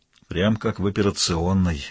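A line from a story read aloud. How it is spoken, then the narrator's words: Gloomy. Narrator (Russian): мрачно сказал Валандер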